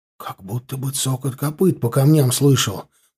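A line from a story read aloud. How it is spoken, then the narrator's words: Whispered. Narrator (Russian): прошептал Ленька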